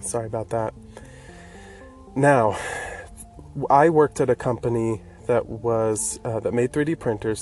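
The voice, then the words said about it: Congested, stuffy-nosed voice. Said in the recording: “I do have a bit of a cold, so I sound a little congested.”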